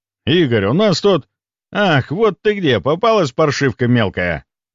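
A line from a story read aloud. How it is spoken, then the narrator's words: Bellowing roar. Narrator (Russian): Леонов взревел раненой белугой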